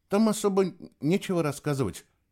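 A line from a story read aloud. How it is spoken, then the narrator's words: Timid voice. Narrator (Russian): робко произнес он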